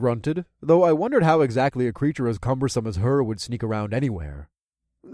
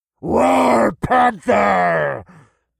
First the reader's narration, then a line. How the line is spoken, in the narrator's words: A deep, husky voice bellowed from off in the distance